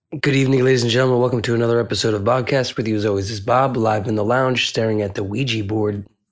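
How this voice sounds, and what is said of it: Sick-sounding voice. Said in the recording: “I got COVID. you could probably hear from my voice.”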